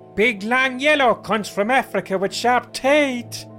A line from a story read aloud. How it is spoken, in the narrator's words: I shouted